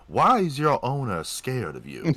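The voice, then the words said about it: Imitates a film character's voice. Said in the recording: “That's a good impression.”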